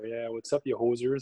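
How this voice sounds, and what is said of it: Put-on stereotypical Canadian accent. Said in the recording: “he's speaking with a stereotypical Canadian accent there”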